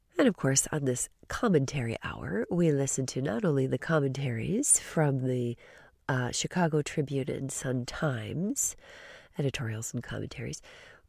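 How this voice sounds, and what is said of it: Voice affected by a cold. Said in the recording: “I'm recovering from a bit of a cold, so you'll have to pardon my voice today”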